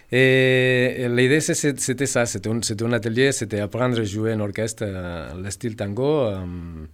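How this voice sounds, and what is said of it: Slight foreign accent. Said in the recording (French): “Ce petit accent que tu as”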